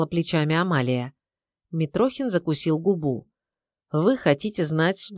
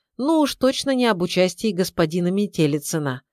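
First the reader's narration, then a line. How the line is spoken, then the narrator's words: Snort. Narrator (Russian): хмыкнул Митрохин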